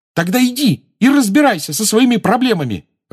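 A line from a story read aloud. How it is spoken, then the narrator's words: Furious exclamation. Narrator (Russian): разъяренно воскликнула Джоу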